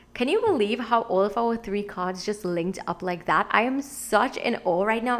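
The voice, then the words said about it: Excited, energetic voice. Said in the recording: “you can probably hear it in my voice. I'm so excited.”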